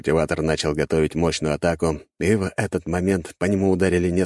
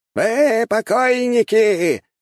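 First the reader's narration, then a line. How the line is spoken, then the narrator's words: Old man shouting explosively. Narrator (Russian): прокричал старик, взрываясь энергией ци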